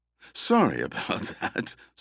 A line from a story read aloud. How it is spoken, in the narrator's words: Starland said, laughing